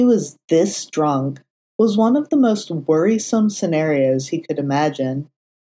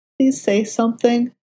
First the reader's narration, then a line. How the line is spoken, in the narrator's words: Matt pleaded, his tortured expression